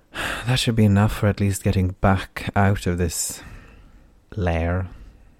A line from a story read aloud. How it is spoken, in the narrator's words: Taryn said with a sigh